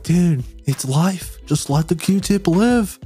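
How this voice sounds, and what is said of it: Surfer-dude West Coast voice. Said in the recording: “best best ever impression I heard you say... like surf or, West Coast... I guess like a surfer”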